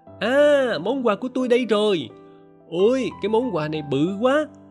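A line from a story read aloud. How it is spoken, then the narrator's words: Excited shout. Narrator (Vietnamese): tôi la lên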